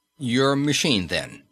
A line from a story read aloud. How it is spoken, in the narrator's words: said Fraser